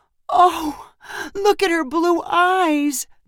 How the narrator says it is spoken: Madison cried to her brother

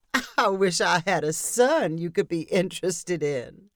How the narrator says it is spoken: said Abigail with a laugh

